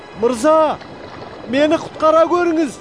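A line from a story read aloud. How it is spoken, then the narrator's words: Crying out. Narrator (Kazakh): деп айқайлап жіберді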